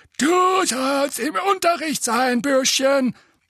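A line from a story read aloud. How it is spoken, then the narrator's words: Croaked. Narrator (German): krächzte der eine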